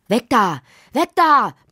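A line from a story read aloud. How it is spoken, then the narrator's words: Bellowing father. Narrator (German): brüllte Lottis Vater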